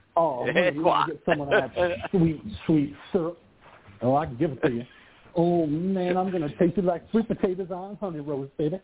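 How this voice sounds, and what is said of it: Put-on Southern Cajun accent. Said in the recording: “I can put on a Southern accent for you if you want. I can go Cajun.”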